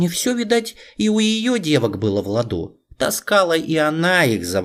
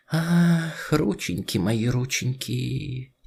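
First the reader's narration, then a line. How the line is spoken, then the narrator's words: Old woman's quiet lament. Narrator (Russian): тихо причитала бабушка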